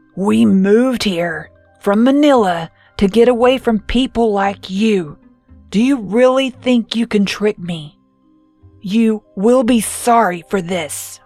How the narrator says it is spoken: She said in a low, growling voice

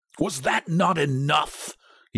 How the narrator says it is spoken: he demanded fiercely

